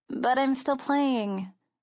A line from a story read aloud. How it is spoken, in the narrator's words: Sarah argued feebly